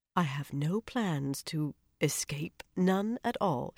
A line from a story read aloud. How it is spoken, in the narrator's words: she said in a quieter voice